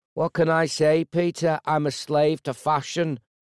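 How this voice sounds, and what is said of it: Heavy Liverpudlian accent, smug tone. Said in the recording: “his Liverpudlian accent heavy and his tone smug and uncaring”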